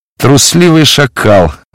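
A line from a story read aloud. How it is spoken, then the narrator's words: Warriors laughing mockingly. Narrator (Russian): засмеялись воины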